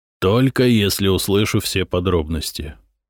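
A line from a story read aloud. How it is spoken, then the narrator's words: Eerily calm. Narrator (Russian): ответил Глыба так спокойно, как будто не его человек сейчас лежал за дверью с перерезанным бритвой горлом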